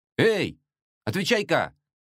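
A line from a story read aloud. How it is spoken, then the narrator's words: Young man shouting again. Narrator (Russian): закричал снова паренек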